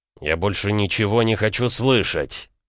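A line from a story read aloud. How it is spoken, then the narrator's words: Barking shout. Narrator (Russian): рявкнул Рома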